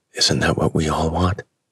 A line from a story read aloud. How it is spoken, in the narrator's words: The reporter, her eyes shimmering with admiration and introspection, whispered, almost to herself